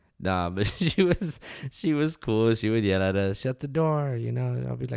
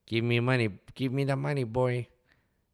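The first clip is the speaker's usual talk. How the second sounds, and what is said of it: Imitated voice of an acquaintance. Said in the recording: “do a better Tola voice ... No, I can't do it ... I'm fucking it up”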